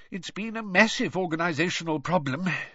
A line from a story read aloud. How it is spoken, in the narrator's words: sighed Mr Weasley